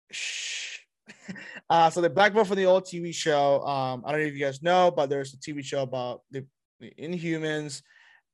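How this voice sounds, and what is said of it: Voice fading, losing voice. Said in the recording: “Sorry, my voice just went away.”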